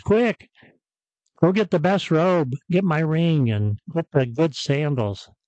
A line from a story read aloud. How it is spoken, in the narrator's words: the father shouts